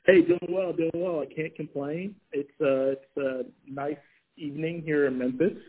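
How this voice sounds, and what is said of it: Slight Southern accent with twang. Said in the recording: “Your southern accent is actually coming out as you speak ... You're getting a little bit of a twang.”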